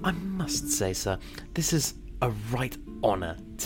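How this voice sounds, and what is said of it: English accent. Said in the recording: “why does he have an accent? ... He's my distant cousin, come to see me from England.”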